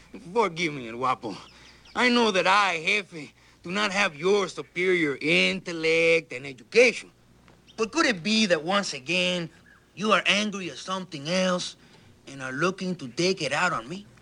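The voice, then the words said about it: Good put-on Mexican accent. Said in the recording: “That was good. ... That's a good Mexican accent.”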